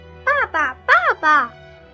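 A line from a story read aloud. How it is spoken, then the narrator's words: Puzzled calling out. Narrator (Chinese): 以撒开始觉得奇怪，叫住亚伯拉罕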